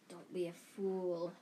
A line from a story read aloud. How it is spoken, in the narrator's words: snarled the voice